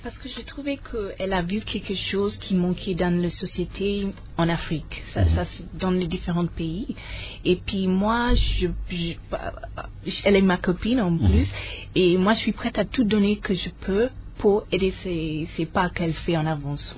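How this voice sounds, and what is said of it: British accent speaking French. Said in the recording (French): “j'adore son accent en français. On est une British.”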